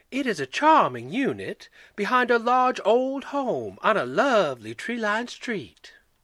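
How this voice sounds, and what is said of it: Genteel old Southern woman's accent. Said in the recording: “with an antebellum accent most becoming”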